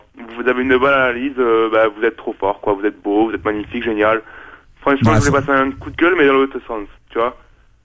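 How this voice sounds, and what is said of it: Weak put-on Marseille accent. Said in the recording (French): “avec un accent marseillais ... c'est une imitation un peu pourrie”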